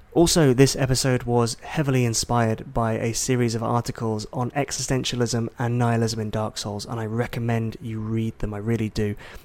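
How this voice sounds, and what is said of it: Soft, quiet, hushed voice. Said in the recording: “my voice might be a little bit weird, a little bit soft, a little bit sultry... I was having to be quiet... trying to keep the noise down”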